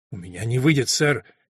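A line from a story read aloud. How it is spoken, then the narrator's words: Frightened reply. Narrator (Russian): испуганно ответил Эллиот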